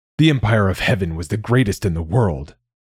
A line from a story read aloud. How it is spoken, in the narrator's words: Malik growled